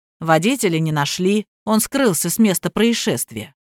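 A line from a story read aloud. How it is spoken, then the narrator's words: Very calm narration. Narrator (Russian): очень спокойно повествовал Сергей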